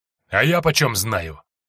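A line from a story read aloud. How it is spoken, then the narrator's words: Snapping retort. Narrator (Russian): огрызнулся Федотов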